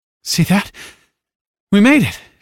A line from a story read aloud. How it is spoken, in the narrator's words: said with a faint laugh that became a coughing fit